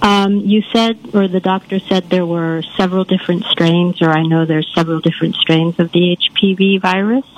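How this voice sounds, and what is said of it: Rich, polished radio-style voice. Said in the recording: “you got a beautiful radio voice.”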